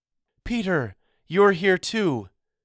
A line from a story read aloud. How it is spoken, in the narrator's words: she cried